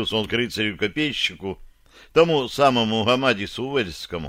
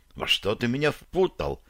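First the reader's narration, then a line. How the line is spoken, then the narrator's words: Quiet question. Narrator (Russian): тихо спросила Рикса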